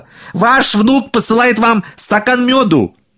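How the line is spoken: Shouting again. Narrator (Russian): Еще раз прокричал он

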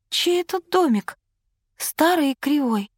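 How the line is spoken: Timid question. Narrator (Russian): робко спросила

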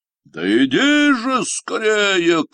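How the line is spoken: Shouted. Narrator (Russian): крикнул Синяя Борода

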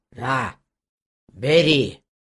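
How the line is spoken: Gruff mutter. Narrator (Russian): буркнула ведьма

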